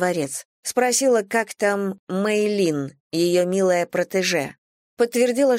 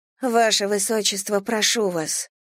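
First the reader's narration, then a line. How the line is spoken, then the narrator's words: Sad. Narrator (Russian): сказала грустно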